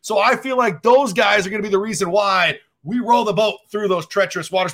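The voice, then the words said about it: Impression of PJ Fleck. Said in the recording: “that PJ Fleck impression right there. That was great.”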